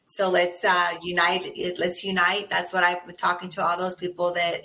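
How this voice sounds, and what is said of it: Raspy voice. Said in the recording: “my voice is raspy”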